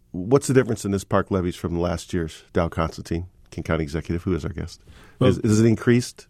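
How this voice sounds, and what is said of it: Congested, sick-sounding voice. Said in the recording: “You can hear I have a cold.”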